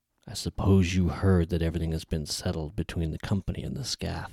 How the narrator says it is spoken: he said in a growl

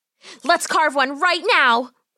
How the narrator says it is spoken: Polly cried out

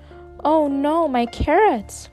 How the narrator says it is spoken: cried Rabbit

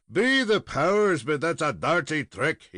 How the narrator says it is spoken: exclaimed

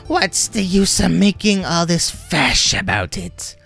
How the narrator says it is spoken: cried the elf mother shrilly

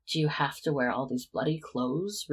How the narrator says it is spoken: Remus growled in frustration

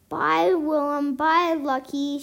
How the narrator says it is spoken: she shouted

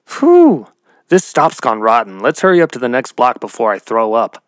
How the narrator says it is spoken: Mickey, with disgust, exclaimed

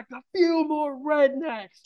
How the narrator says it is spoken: we'd have to yell back

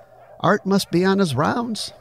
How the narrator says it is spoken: said Abelia

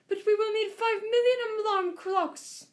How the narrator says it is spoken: cried the audience

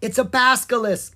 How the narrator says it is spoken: Will shouted

